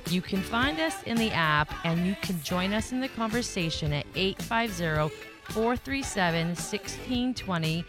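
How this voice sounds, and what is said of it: Speaks with a noticeable accent. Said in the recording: “I have an accent, so it's hard to say Santa Rosa County. I want to be like Santa Rosa.”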